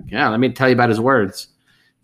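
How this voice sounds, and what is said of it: Imitates another person's voice. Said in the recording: “Peter Cushing shows up and he's like ... perfect impersonation.”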